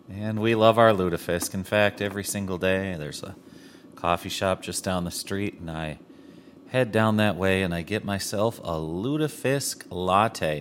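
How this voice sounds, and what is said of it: Strong Minnesota accent. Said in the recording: “my crazy accent ... I am from Minnesota”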